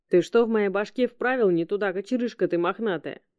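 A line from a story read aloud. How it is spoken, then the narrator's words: Displeased grumble. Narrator (Russian): недовольно проворчал артефактор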